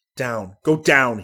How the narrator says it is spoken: barked

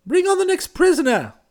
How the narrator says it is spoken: shouted the kinglet

